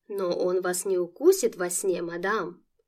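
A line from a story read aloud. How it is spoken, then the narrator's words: Gallant chiming-in. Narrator (Russian): Галантерейно подхватил немец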